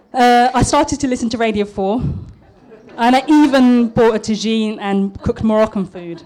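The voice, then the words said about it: Posh British accent. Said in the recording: “my East London accent dropped and it turned into something like this ... I'm a bit nervous, so I'm going to put on my posh voice”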